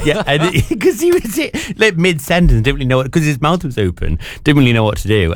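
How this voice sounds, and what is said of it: Unusual mixed accent. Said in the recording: “you got that weird accent”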